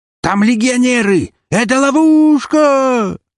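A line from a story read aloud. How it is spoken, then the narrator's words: Shrieking green freak. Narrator (Russian): натурально завизжал зеленый уродец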